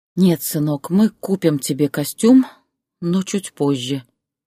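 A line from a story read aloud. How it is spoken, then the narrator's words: Tired. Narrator (Russian): устало произнесла Зоя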